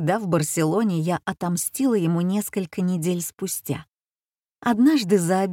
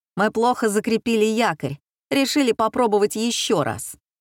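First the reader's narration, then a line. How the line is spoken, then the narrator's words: Shouted. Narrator (Russian): Он крикнул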